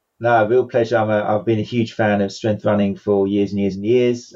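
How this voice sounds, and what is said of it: A noticeable accent. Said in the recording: “your amazing accent”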